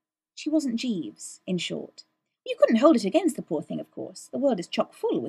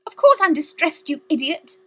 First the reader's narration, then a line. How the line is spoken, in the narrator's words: she snapped